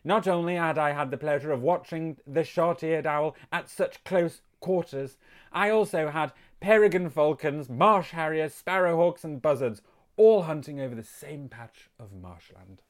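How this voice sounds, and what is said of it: Posh accent. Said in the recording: “He got posh again. ... I can't do bird watching in a northern accent.”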